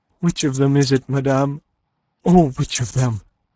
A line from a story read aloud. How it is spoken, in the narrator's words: gasped Aline, scarce daring to look or senses swimming